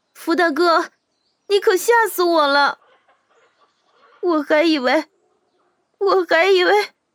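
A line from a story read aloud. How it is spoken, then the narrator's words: Tearful, aggrieved. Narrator (Chinese): 他带着哭腔，颇为委屈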